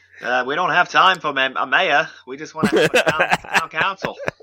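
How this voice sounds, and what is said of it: Put-on Maine accent. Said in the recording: “my spot on Maine accent.”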